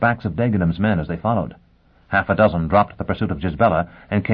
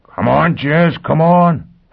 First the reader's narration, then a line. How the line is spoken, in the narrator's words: Foyle howled